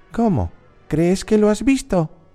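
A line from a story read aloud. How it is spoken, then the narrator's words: Girl exclaiming. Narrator (Spanish): exclamó la niña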